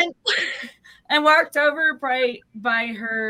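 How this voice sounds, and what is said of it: Usual voice. Nothing is said of it.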